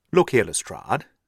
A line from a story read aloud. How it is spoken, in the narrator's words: said he